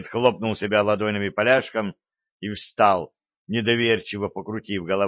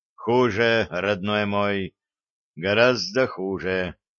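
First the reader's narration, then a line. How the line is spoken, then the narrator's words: Assured sadly. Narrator (Russian): печально заверил соратника Зелимхан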